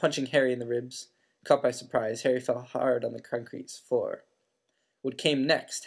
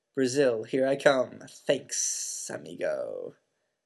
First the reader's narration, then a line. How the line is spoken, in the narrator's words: a low hissing voice that said